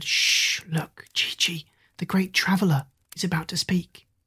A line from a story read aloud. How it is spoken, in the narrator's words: all the others whispered